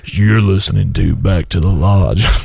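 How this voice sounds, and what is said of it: Radio announcer impression voice. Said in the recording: “little radio voice just hit puberty ... Sam Elliott”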